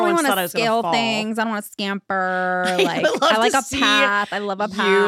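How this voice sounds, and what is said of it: Usual voice. Nothing is said of it.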